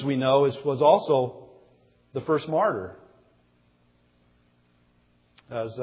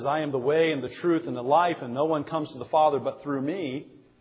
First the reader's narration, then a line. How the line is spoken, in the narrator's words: he says